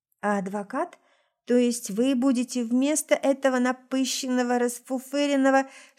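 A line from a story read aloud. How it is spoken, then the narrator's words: Angry hiss through teeth. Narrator (Russian): Шиплю сквозь зубы, гневно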